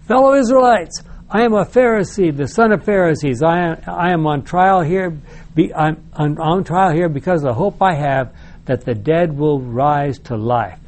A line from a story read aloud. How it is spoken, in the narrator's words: Paul called out in the council